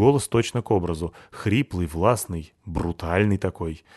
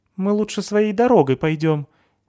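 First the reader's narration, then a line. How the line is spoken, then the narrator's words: Very nervous. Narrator (Russian): ответила Нетта, почему-то очень нервным тоном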